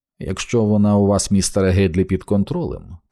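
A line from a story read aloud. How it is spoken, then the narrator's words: Calm, even voice. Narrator (Ukrainian): тим самим спокійним, урівноваженим голосом вів далі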